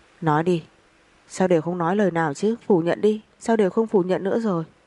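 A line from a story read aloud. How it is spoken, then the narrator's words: Frenzied roaring. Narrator (Vietnamese): Nam Cung Phong rít gào như nổi điên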